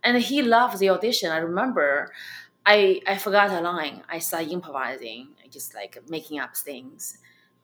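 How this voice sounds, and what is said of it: Chinese accent. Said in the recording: “I have my Chinese accent.”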